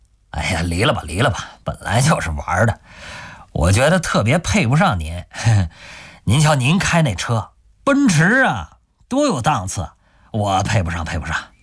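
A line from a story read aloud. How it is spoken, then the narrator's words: Laughing reminder. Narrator (Chinese): 王昭笑着提醒杜威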